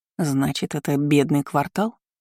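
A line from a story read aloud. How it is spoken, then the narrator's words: Muttered. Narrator (Russian): пробормотала Кейра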